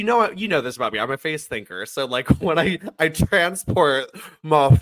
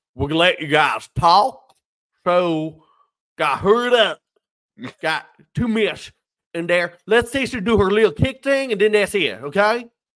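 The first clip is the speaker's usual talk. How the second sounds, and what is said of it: Put-on accent. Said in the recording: “when you do that accent”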